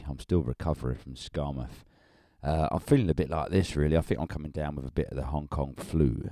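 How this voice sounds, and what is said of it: Croaky voice. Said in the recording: “if I sound a bit croaky”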